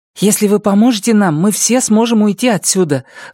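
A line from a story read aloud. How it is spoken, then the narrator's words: Agitated. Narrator (Russian): взволнованно прибавила Карсис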